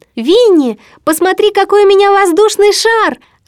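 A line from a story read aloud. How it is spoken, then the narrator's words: Joyful shout, child. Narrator (Russian): радостно прокричал ему Кристофер Робин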